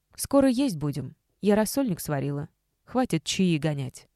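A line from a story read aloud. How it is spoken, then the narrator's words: Plain. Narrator (Russian): сказала мама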